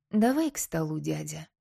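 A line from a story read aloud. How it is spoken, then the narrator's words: Quiet call. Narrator (Russian): тихо позвала Мирослава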